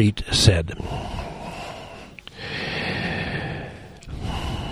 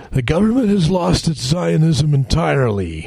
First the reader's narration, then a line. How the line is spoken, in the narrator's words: Rotem howled